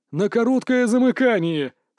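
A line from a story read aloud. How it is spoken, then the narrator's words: Said, then loud laughter. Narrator (Russian): сказал Мажуй Мин и захохотал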